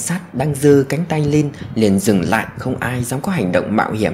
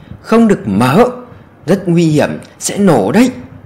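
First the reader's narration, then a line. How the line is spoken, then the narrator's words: Sudden panicked scream. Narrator (Vietnamese): gã đàn ông bỗng hét lên thất thanh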